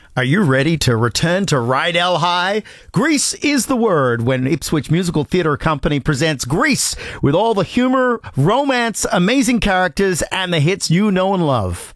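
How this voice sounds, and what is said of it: Attempted American accent as Vince Fontaine. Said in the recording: “I need to do this in the Vince Fontaine accent, which I'm still working on ... the first time I've ever had to do an American accent”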